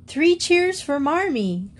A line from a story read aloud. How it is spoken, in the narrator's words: cried Jo